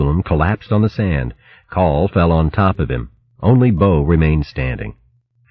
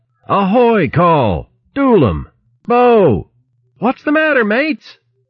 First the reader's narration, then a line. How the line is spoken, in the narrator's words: Luke yelled